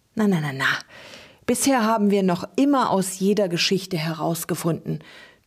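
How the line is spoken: Comforting, smoky voice. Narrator (German): tröstete Trug mit rauchiger Stimme

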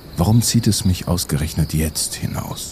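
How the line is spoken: Quiet question to himself. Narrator (German): fragte er sich leise

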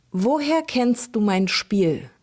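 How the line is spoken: Plain question. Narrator (German): fragte Emi

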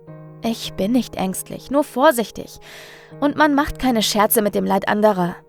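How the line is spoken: Defensive justification. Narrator (German): versucht sich Hannah zu rechtfertigen

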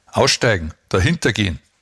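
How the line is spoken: Demanding call. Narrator (German): rief er fordernd

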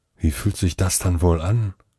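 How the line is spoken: Murmuring to oneself. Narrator (German): murmelte ich mehr zu mir selbst

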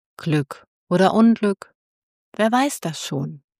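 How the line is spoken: Farmer speaking softly. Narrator (German): der Bauer sprach leise

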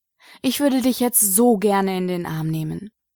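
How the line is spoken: Sighing. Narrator (German): seufzte Remy

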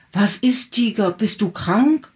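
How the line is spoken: Calling out. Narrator (German): rief

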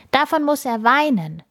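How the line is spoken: Boy calling. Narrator (German): ruft ein Junge

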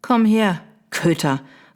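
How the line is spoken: Stern call. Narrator (German): rief sie streng

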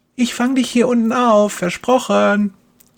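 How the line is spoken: Call. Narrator (German): ruft Kerstin

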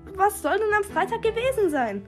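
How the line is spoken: Desperate shout. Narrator (German): rief verzweifelt

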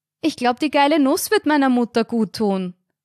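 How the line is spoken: Loud answer. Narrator (German): antwortete Carina lautstark

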